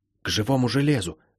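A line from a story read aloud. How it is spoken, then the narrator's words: Whisper. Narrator (Russian): шепнула она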